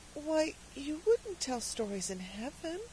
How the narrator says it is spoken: said Cecily in a very timid voice

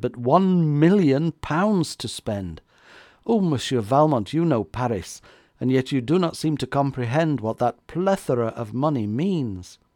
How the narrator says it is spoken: she cried

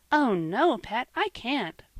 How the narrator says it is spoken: cried Polly

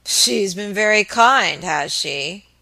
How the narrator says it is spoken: muttered Mr

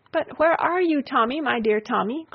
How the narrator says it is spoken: cried out his mother, wringing her hands

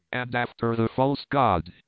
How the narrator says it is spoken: he cried

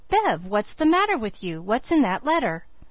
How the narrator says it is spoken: Felix exclaimed

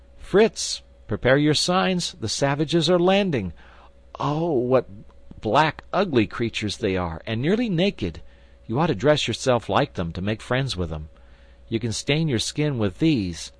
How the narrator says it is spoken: Jack, with his usual rashness, had climbed to the summit of one of the tallest trees, and suddenly cried out

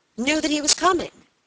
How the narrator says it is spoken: cried Robert, brightening up

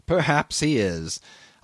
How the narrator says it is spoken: I admitted with a slight laugh, whose unexpectedly loud reverberation made me lower my voice directly

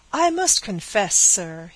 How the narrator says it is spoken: he exclaimed with heat

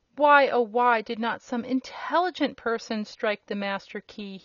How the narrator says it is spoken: moaned

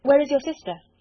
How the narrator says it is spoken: he said hastily

